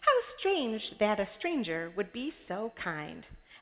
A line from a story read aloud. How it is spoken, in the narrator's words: exclaimed